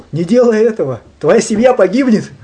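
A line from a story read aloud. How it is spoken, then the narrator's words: Exclaiming. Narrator (Russian): Его гуру воскликнул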